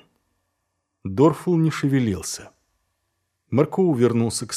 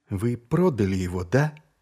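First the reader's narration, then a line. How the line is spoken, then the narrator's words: Said quietly. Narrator (Russian): тихо произнес Маркоу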